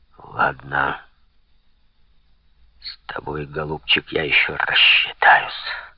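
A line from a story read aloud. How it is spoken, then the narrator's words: Hissing. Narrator (Russian): прошипел Артуа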